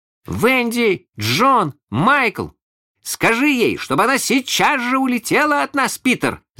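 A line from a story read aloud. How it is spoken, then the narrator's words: Three voices shouting together. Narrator (Russian): закричали все трое разом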